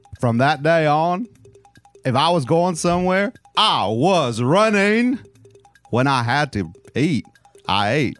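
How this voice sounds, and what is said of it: Forrest Gump impression. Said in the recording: “Impersonations ... First one, Forrest Gump.”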